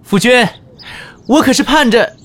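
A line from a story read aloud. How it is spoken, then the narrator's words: Warm calling out. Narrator (Chinese): 颜和如亲切地喊道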